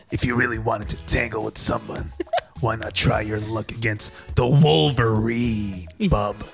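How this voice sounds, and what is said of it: Gruff Wolverine character voice. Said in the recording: “do you want to read that in your best Wolverine voice? ... My best Wolverine?”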